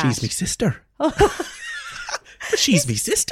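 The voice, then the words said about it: Poor put-on Irish accent. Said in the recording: “my shit Irish accent”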